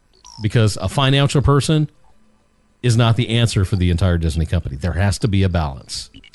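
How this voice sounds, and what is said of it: Polished radio announcer voice. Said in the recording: “I forget how good ... radio voice is”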